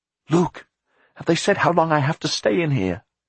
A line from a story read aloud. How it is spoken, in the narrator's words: Jack cried